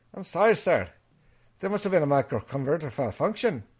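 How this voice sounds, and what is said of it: Put-on Scottish accent. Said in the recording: “my Scottish accent”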